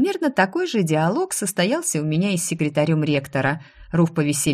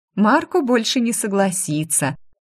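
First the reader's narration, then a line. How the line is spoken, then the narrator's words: Giggled. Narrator (Russian): хихикнула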